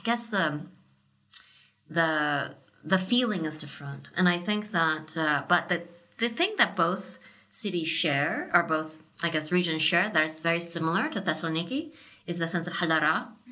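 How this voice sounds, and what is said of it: Southern California accent. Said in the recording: “My accent that you hear... is actually a Southern California accent... this is what a Southern California girl sounds like.”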